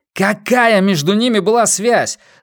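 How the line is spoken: Forceful room-filling yell. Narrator (Russian): заорал он на нее, заполнив своим напором всю комнату

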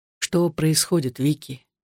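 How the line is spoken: Whispered. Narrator (Russian): прошептал

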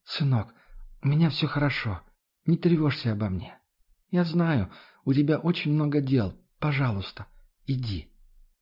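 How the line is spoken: Barely audible whisper. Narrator (Russian): Мама могла еле слышно прошептать

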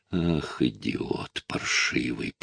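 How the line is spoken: Hissing through clenched teeth. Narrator (Russian): прошипела она сквозь стиснутые зубы

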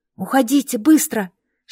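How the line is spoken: Girl whispering. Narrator (Russian): шепнула девушка

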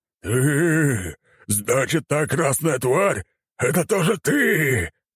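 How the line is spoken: Hissing, man. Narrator (Russian): прошипел он

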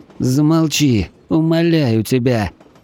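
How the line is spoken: Young man's pained moan. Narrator (Russian): простонал юноша, но в тот же момент вскрикнул от головной боли

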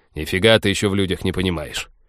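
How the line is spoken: Stubborn, insincere grumble. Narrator (Russian): упрямо проворчал пилот, однако процент искренности в его голосе был позорно низок

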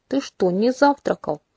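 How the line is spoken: Indignant mumble, mouth full. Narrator (Russian): возмущенно промычала, запивая тост кофе

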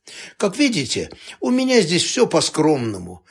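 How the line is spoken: Cheerful. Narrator (Russian): весело сказал президент

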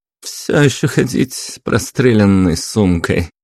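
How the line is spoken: Mocking yet gloomy reply. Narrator (Russian): насмешливо, но при этом мрачно ответила она на мой вопрос

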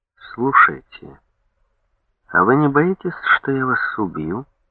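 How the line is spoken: Thoughtful question. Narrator (Russian): спросил задумчиво

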